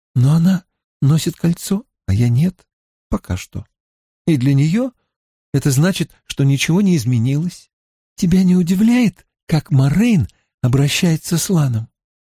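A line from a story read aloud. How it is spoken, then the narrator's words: Sweet voice. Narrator (Russian): спросила Эгвин сладким голоском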